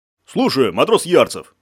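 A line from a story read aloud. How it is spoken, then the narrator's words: Solemn deep bass. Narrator (Russian): солидно пробасил Ярик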